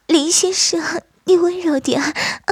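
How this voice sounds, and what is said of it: Coquettish, sweet breathy voice. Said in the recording (Chinese): “只听见马奇娇娇滴滴的声音说道”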